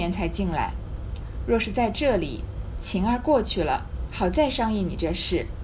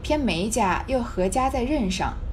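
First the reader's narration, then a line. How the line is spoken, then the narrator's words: Worried sigh. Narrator (Chinese): 宝钗愁眉叹道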